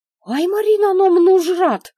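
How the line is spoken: Girl's squeal. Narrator (Russian): взвизгнула девчонка

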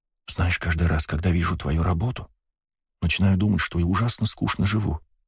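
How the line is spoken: Whisper in ear. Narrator (Russian): прошептала мне на ухо Ева

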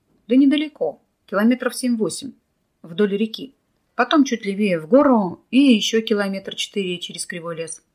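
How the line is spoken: Tired. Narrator (Russian): устало произнес Николай

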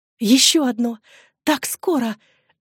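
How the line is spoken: Delighted young woman's exclamation. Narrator (Russian): воскликнула молодая женщина, и глаза ее восторженно засияли

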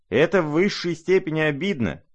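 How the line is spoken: Shrieking. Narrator (Russian): завизжал Ипполит

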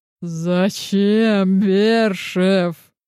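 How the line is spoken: Nearly laughing, supervisor. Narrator (Russian): Едва не захохотал куратор

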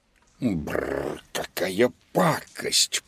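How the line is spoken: Grumbling cat. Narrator (Russian): проворчал кот Луноброд

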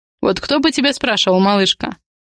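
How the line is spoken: Scoffing. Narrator (Russian): хмыкнул Адриан

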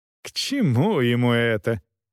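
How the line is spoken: Nearly laughing. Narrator (Russian): Бригит едва не засмеялась

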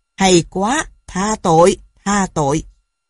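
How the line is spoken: Laughing loudly. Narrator (Vietnamese): Ngài cười lớn

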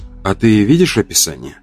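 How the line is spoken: Soft sighing young woman. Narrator (Russian): девушка вздохнула и тихо продолжила

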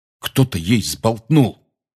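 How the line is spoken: Angry. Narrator (Russian): сердито сказал Рон

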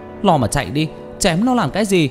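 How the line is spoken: Loud shout. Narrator (Vietnamese): Tôi hét lớn

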